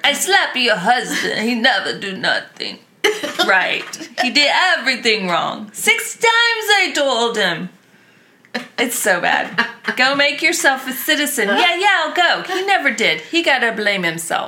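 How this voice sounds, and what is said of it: Imitates another person's accent. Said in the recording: “Can you do it in Nono's accent, please?... It was the best ever.”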